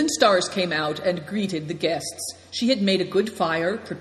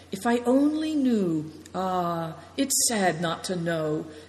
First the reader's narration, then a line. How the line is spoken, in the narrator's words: he murmured again and again